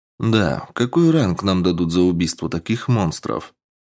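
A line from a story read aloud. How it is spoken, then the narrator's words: Calm question. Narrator (Russian): спокойно поинтересовался я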